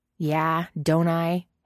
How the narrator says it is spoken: Hayes sneers, but it cracks in the middle

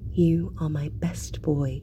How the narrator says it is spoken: Sansa whispers

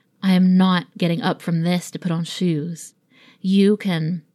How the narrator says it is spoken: he moaned

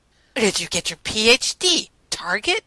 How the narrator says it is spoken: Rodney asked scornfully

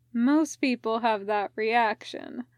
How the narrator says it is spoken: Dick says, his voice warm

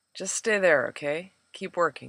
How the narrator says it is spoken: murmured

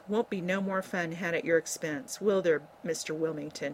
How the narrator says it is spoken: she added sharply

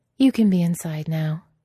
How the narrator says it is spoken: says, warmly, generously

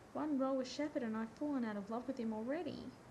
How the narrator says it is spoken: Rodney cried

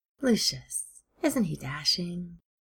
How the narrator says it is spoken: Steed said dreamily

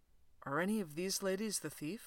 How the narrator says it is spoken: whispers Fraser

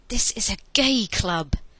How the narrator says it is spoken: Andy hissed in his ear

